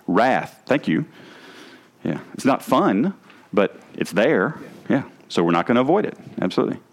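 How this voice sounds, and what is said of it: Southern US accent. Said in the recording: “my southern accent”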